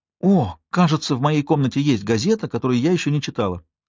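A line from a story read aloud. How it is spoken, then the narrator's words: Exclamation. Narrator (Russian): воскликнула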